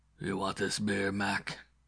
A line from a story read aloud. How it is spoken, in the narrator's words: he said, and the voice was a rolling growl from somewhere deep inside a keg-like chest